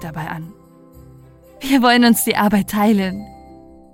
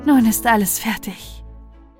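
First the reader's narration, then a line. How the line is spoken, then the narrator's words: With a small sigh. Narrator (German): sagte sie mit einem kleinen Seufzer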